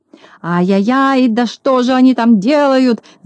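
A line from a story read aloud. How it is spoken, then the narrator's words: Angry shout. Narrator (Russian): закричал Клопс, наливаясь от злости кровью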